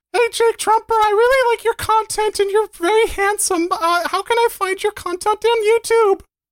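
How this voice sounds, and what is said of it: Put-on voice reading a question. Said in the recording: “I'll just do shrug emoji's voice for her ... That was a really good impersonation of someone.”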